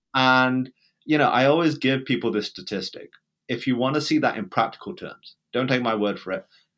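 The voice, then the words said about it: British accent. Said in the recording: “for my accent, I'm, I'm British”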